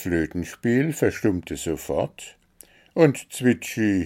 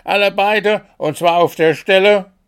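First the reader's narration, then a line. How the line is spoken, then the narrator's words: Desperate shout. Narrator (German): schrie Wuschel in seiner Verzweiflung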